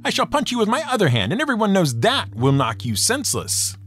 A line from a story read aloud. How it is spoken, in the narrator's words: Coyote yelled